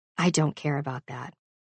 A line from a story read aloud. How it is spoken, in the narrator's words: he says softly